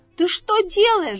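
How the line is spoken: Shouting. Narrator (Russian): закричал он

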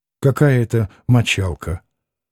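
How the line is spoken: Mumbling. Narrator (Russian): пробормотал Алёша

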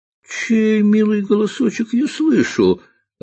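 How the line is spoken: Joyful reply. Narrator (Russian): радостно откликнулся ловец

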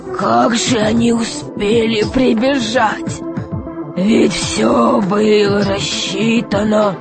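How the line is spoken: Desperate muttering. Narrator (Russian): бормотал он в отчаянии

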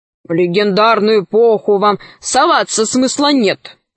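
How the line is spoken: Grumbling. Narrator (Russian): ворчал

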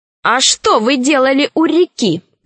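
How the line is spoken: Shouting. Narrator (Russian): крикнул Фима

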